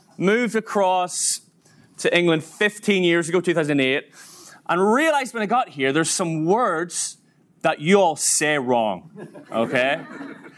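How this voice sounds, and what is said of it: Northern Irish accent. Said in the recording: “obviously I'm from Northern Ireland, you may have worked it out from my accent”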